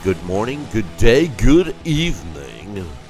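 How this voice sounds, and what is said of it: Put-on radio announcer voice. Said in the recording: “It's my radio voice.”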